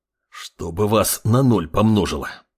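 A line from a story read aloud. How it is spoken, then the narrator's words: Hissing. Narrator (Russian): прошипел мужчина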